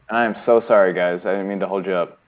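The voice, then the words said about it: Flat monotone voice. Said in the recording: “he spoke very monotone.”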